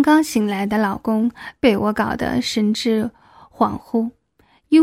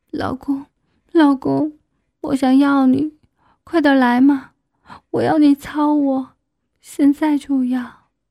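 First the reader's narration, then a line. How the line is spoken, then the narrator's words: Crying, pleading. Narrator (Chinese): 一边哭着一边对他说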